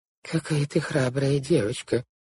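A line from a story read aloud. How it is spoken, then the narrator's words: Muttering aunt. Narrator (Russian): пробормотала тетя Жозефина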